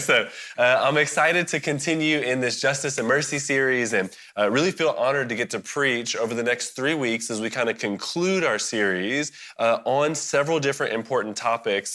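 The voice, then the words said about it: Worn-out, tired voice. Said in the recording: “my voice is not refreshed from Sunday”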